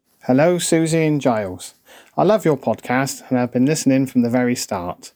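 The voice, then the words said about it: Devon English accent. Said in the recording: “Oh, I love that Devonian accent, Paignton.”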